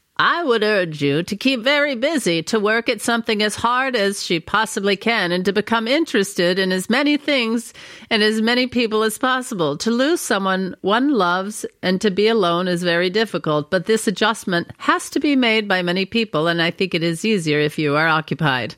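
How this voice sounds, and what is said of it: Eleanor Roosevelt impression. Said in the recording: “your Eleanor Roosevelt impression”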